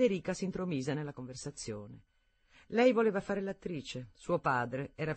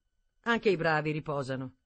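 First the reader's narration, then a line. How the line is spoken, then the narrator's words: Curt, dry. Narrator (Italian): disse seccamente Wilkie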